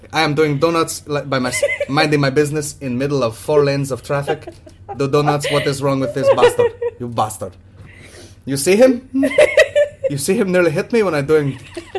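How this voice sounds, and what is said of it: Put-on kebab shop accent. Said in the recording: “I don't even know what your accent is anymore. ... It's just kebab shop. It's not even a country there.”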